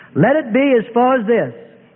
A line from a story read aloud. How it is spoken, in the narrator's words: Jesus said loudly with authority and power